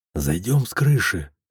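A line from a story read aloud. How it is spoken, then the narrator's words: Whisper. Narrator (Russian): шепотом сказал я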